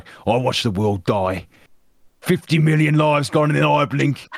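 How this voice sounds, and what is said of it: Soldier character in Brummie accent. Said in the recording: “a voice of a cutthroat soldier who I did the Brummie accent”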